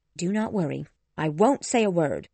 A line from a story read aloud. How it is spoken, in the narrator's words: said Elizabeth angrily